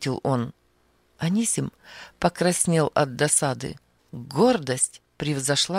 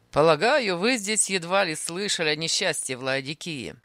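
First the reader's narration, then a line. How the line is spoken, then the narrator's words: Mocking. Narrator (Russian): сказал он насмешливо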